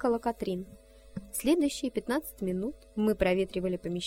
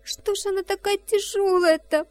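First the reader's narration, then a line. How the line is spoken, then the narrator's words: Groaning. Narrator (Russian): простонала Катрин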